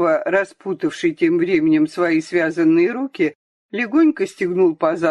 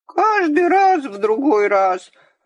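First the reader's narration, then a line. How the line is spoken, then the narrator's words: Offended grumbling. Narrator (Russian): обиженно бурчал Сенька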